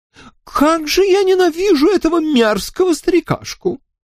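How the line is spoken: Exclaiming. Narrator (Russian): воскликнула

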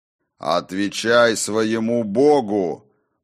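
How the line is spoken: Thundering voice. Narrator (Russian): прогремел познавший тьму

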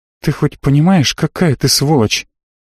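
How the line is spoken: Quiet question. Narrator (Russian): Тихо спросила Марго

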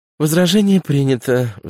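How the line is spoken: Sighing. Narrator (Russian): вздохнула Афа

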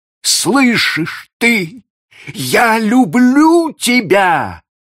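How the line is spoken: Shout. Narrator (Russian): еще раз закричал он

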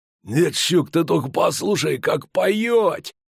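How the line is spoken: Hoarse interruption, burly man. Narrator (Russian): Хрипло влез в разговор крепкий, остриженный чуть не наголо тип

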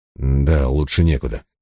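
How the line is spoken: Irritated reply. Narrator (Russian): раздраженно ответил я

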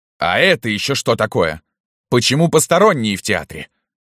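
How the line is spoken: Growled. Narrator (Russian): зарычала дама

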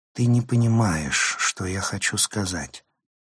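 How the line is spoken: Sighing. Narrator (Russian): вздохнула она

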